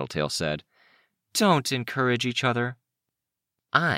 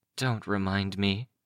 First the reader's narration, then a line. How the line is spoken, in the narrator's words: Foyle muttered